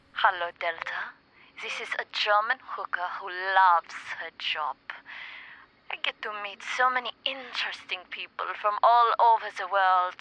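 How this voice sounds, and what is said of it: Put-on German accent. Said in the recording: “drop the German accent”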